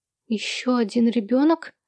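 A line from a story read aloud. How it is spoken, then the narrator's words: Confused question. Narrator (Russian): растерянно переспросила она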